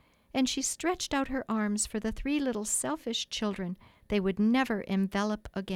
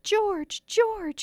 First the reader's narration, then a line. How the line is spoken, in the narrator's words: she cried, when she could speak